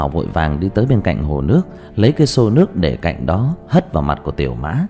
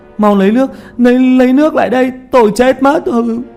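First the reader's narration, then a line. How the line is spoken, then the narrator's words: Anguished screaming. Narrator (Vietnamese): Tiểu Mã kêu gào dưới thân của Thi Vương, hai tay cào mặt mà hét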